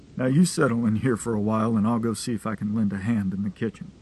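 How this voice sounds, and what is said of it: Deep, resonant, rough male voice. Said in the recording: “He had a deep voice, resonant but rough around the edges, the words like stones rubbing against one another.”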